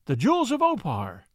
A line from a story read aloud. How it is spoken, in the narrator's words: cried